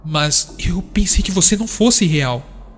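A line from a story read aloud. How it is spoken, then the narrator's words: Stammering. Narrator (Portuguese): Isaac gaguejou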